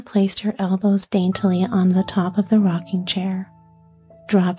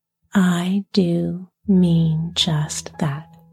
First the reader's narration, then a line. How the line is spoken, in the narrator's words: said slowly